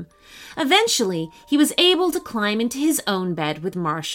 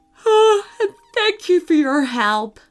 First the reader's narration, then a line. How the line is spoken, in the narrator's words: Sean yawned